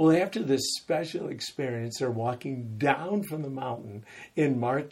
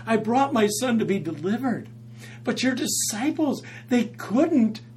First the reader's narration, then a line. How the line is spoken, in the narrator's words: a desperate father cries out to Jesus and said